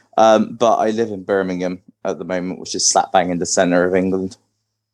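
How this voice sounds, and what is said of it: West Country English accent. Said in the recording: “originally I'm from Bristol in the UK, which is like down in the West Country. I've got quite a distinguishable accent to a lot of people from the UK... Most people outside think I'm Irish for some reason.”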